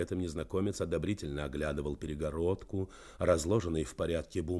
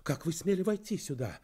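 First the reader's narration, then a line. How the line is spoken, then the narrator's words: Indignant exclamation. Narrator (Russian): воскликнула она с возмущением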